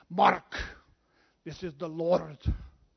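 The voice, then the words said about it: Scottish accent impression. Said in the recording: “Sean Connery Scottish accent.”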